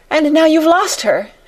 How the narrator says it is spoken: she cried wildly

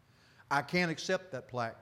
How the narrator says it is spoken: said

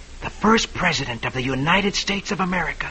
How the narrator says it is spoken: whispers in awe

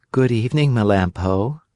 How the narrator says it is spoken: One of them said in a sweet voice

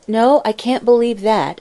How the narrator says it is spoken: answered Mary Louise

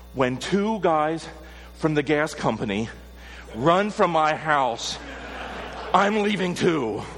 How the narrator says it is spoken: she, gasping a breath, said

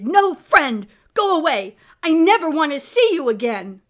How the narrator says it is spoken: she shouted

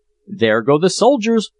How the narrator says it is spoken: cried Peterkin

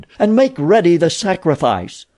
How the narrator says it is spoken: she cried

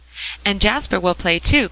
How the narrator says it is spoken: cried Polly eagerly

